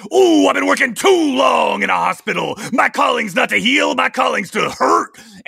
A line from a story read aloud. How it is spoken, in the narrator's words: that big guy, that unhealthy muscle guy, he shouts